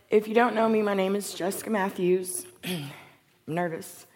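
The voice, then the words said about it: Scratchy, strained voice. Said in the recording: “My voice is a little scratchy. I was out screaming free hot dogs yesterday.”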